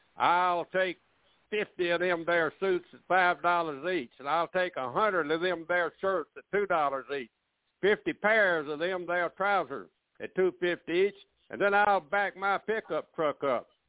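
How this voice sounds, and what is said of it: Slow fake Georgia drawl. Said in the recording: “I'm going to talk in a slow Georgia drawl ... with his best fake Georgia drawl”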